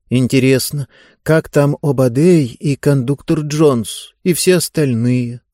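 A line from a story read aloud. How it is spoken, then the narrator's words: Sad. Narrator (Russian): грустно сказала Диба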